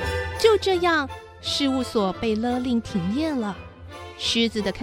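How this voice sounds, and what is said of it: Usual voice. Nothing is said of it.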